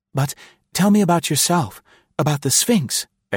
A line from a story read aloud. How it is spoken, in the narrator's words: exclaimed the girl eagerly